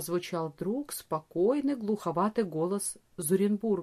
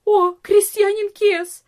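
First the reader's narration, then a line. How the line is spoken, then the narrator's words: Cry out. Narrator (Russian): вскрикнула одна из служанок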